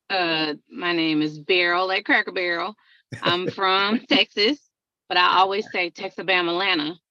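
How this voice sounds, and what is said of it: Southern country twang and drawl. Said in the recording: “I got a twang and a draw. So I'm double country.”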